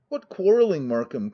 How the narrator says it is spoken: cried the latter

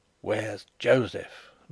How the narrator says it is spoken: muttered Zapt

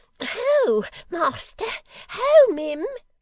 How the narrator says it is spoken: cried Miggs

